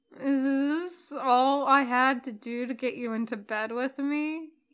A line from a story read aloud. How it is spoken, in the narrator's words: asks, words slurring a little